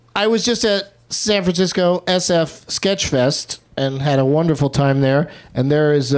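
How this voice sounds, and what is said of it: Usual voice. Nothing is said of it.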